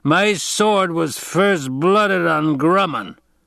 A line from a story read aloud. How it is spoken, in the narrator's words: bellowed